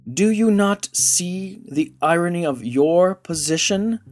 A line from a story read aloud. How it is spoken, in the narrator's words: snapped